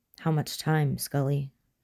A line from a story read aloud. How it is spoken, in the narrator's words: Mulder asked as soon as the door was closed, his voice quiet, intense